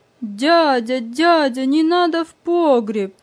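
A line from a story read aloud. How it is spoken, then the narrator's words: Frightened shouting. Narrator (Russian): испуганно кричал я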